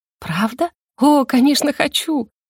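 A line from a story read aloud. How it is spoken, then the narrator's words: Breathless delighted cooing. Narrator (Russian): Воскликнула, захлебываясь от восторга, и проворковала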